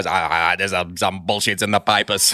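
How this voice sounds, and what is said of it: Impression of Kimi Räikkönen. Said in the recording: “your Kimi impression”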